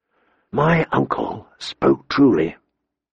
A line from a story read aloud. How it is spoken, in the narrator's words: he whispered to Ghost